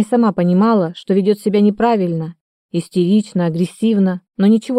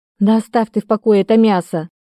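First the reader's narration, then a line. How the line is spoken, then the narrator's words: Exclamation. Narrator (Russian): воскликнула Магда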